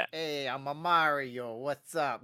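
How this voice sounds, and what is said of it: Deep New York Italian character voice. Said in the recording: “a really strong like ... like a New York Italian ... like a kind of like a dark, like a deep”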